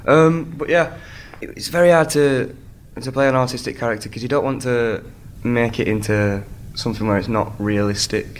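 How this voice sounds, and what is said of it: Northern English accent. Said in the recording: “This is an English accent. ... Yes, I am from England as well. Leeds, the north of England.”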